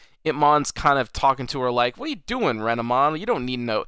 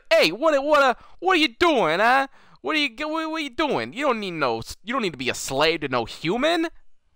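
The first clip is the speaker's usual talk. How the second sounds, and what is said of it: Put-on New York accent. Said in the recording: “He's got like this New York accent”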